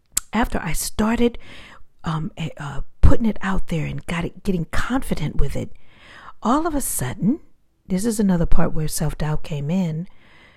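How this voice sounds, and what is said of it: Calm, meditative speaking voice. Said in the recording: “As you can hear, my voice is very meditative. So whenever I'm speaking, this is how you will usually hear me”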